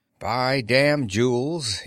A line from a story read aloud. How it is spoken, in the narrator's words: he said